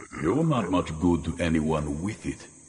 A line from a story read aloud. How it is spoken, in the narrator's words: Vaster grunted